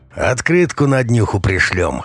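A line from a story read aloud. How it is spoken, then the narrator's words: Snorting. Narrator (Russian): хмыкнул Жила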